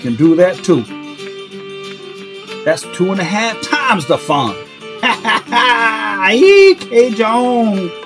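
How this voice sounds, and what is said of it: Put-on Cajun accent. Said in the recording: “Fucking killing it with the Cajun accent”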